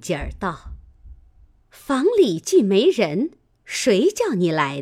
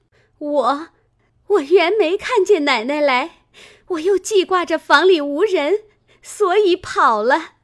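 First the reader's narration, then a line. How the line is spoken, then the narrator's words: Crying little maid. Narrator (Chinese): 小丫头子哭道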